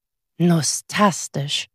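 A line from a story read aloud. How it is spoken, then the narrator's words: Soft. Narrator (German): sagte Butzel leise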